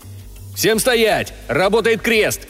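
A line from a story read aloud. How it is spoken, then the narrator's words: Shouting. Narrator (Russian): крикнул я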